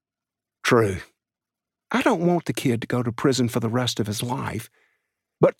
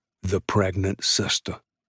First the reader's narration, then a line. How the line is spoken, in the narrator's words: Softly, he said